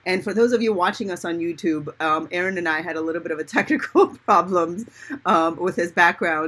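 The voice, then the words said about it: Strange, froggy-throated voice. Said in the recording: “I too am getting over a cold. So if I need to, and if I sound kind of strange or if I have a frog in my throat,”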